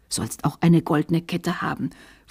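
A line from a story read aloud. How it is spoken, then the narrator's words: Whisper into ear. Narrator (German): flüsterte ins Ohr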